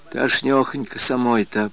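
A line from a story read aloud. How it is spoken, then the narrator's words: Whisper. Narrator (Russian): прошептала она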